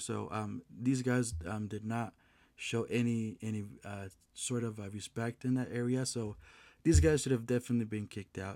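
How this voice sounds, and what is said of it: Strained, hoarse voice. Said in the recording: “Excuse me, I lost my voice.”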